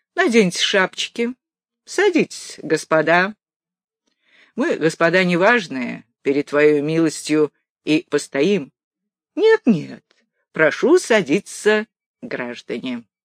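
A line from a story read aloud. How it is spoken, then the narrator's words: Bitter after laughing. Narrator (Russian): Нахохотавшись досыта, помещик не без горечи сказал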